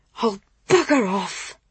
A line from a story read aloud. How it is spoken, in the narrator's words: Laura replied, just about under her breath